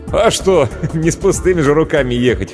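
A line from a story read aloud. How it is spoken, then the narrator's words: Short laugh. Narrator (Russian): хохотнул Иван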